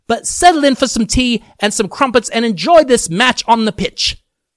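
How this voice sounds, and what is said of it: Put-on British accent. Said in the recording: “I change into a British accent when it comes to the Premier League”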